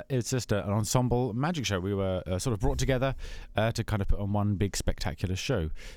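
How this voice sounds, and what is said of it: English accent. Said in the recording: “it all started in England, where I'm from, as you can probably tell from the accent.”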